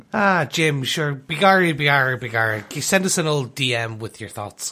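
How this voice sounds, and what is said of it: Exaggerated stereotypical Irish accent. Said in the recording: “Jim O'Hanlon is also from Dublin, Ireland ... we don't talk like that there either”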